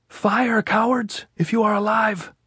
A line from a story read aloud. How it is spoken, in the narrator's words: he shouted